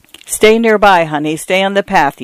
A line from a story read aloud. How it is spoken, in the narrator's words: he said